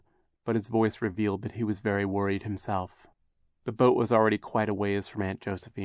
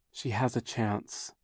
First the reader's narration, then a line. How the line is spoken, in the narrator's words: Violet said quietly to Klaus